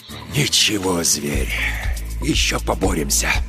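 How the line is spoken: Whisper. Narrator (Russian): Степан прошептал

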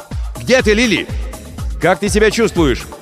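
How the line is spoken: Shouting into distance. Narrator (Russian): закричал в направлении корабля Крисмас

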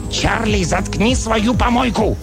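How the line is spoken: Barked. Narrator (Russian): Альф рявкнул

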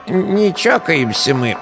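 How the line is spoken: Rattling voice, village deacon warning. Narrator (Russian): знакомым дребезжащим голосом предупредил меня сосед слева по виду дьячок сельской церкви

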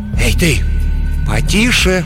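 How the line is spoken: Persuasive voice. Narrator (Russian): убедительным голосом произнесла Шан Юн

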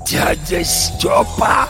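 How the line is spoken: Hoarse rasp, recognition. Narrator (Russian): прохрипел Горемыкин, узнавая

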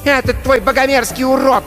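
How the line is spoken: Shouting. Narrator (Russian): кричала на Кристофера Мэгги

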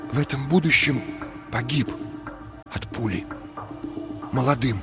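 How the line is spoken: Friend whispering. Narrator (Russian): прошептал друг

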